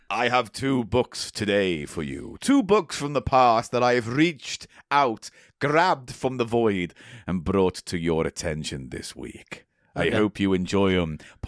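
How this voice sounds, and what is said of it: Put-on character voice. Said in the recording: “I'm going to still do the voice for a bit.”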